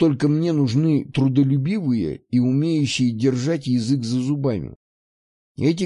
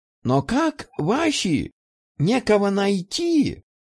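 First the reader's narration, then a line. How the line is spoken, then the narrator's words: Confused, drawn-out words. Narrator (Russian): Мужчина растерянно растягивал слова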